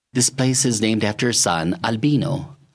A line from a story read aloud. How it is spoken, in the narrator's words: said evenly